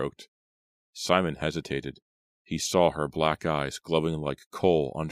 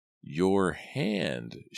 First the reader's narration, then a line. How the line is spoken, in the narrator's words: she repeated in her deep, raspy voice